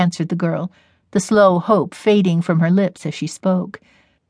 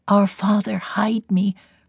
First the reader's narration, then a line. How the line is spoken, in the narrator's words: her heart murmured, because it had become a habit